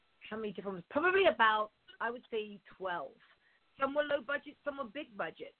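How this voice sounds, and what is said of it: English accent, not American. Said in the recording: “I've got an English-spoken voice, I don't really have the American accent.”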